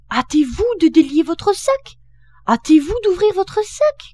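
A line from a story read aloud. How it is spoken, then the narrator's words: Shouting. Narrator (French): cria-t-il au renard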